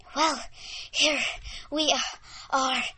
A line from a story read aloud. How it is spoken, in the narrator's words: said Sarah in between breaths